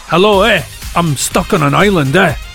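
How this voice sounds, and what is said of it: Imitated Fife Scottish accent. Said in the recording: “people from Fife, you know, it's that ... It's the accent.”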